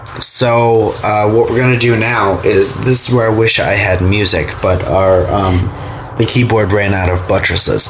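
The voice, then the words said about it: Congested, sick-sounding voice. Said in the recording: “My voice is, you'll hear, is a lot sexier than normal ... I'm a sick man. And I have, my head is filled with boogies, both in my nose area and down behind my mouth in my throat”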